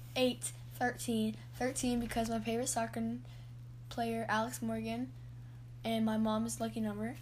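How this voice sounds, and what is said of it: Hoarse, strained voice. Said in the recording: “I'm losing my voice and my throat's kind of hurting right now”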